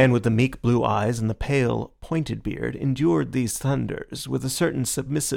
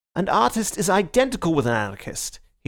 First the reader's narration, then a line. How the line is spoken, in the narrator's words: he cried